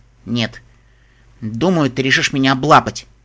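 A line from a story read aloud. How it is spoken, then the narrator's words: Snorted. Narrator (Russian): Дэш фыркнула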